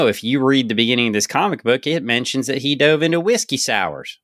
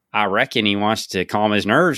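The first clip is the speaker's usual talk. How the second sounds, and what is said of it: Put-on hick Southern accent. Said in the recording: “has a hick Southern accent ... why you got to make Tony Stark sound like that now?”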